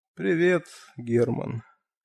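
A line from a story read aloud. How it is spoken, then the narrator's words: Quiet. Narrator (Russian): негромко произнес Джордан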